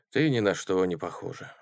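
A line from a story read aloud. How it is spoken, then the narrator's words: Sighing. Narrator (Russian): вздохнул профессор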